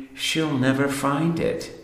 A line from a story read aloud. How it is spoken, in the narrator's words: I mutter, the little man